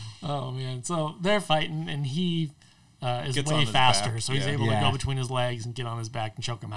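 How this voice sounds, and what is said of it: Usual voice. Nothing is said of it.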